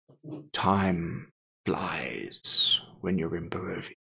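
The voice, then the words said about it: Strahd character voice impression. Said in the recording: “his best Strahd impression”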